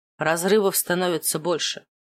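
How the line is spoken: Muttered. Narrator (Russian): пробормотал Маркус

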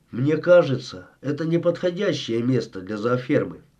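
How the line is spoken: Gloomy statement. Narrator (Russian): мрачно заявил

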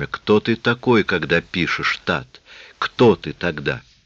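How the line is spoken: Inner whisper. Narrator (Russian): Некий голос внутри него шептал

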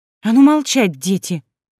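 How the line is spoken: Exclaiming. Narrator (Russian): воскликнула

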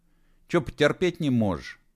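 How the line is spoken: Angry snap. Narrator (Russian): огрызнулся и без того злой Серега

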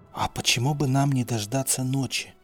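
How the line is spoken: Whispering. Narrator (Russian): прошептал Халадин

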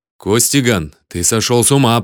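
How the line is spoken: Furious growl. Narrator (Russian): прорычал Филипп, побледнев от ярости

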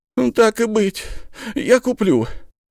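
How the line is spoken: Sigh. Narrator (Russian): вздохнул он

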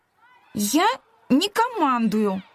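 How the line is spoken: Indignant. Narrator (Russian): возмущенно ответила она

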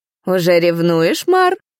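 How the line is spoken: Laughing. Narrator (Russian): рассмеялся один из лордов в маске

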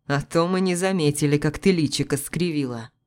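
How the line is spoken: Snorted. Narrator (Russian): хмыкнул Макс

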